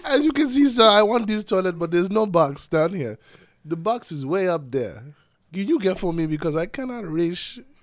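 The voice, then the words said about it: Put-on foreign accent. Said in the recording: “As you put on this accent ... break the accent and just start talking regular”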